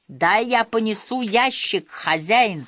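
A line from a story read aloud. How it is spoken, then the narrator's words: Plain. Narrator (Russian): сказал он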